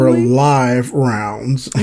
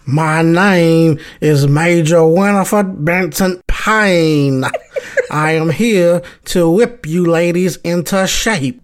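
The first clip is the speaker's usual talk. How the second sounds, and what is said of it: Imitates a film character's voice. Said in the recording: “Major Payne's voice is hilarious ... can you do an impression?”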